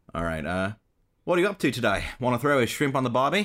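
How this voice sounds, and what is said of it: Convincing put-on Australian accent. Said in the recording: “You actually sound Australian. ... You do sound Australian.”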